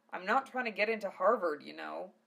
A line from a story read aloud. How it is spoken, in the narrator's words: Val growled defensively